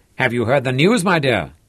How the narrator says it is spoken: cried excitedly

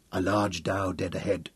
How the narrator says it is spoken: he said quietly to Ned Tyler

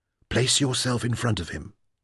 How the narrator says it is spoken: Samana whispered

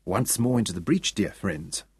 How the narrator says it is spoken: whispered Saul

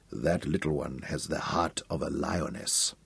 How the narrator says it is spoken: Abelly whispered to himself

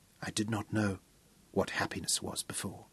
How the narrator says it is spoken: whispered

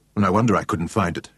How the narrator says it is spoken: muttered irritably

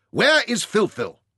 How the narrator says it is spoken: Ryder stormed into his camp and shouted at Bakshit

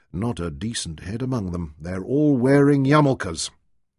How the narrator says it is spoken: Leon muttered to himself

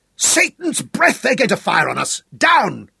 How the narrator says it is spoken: shouted Sir Francis

